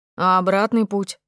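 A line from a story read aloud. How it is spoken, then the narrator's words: Young man's deep voice. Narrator (Russian): пробасил из полумрака какой-то парень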